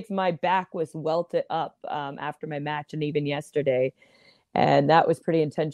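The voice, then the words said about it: Slightly raspy voice. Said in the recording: “my voice is a little raspy today still from the impact of that kick to my vocal cords”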